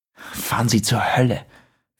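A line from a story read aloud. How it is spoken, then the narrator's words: Hissed. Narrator (German): fauchte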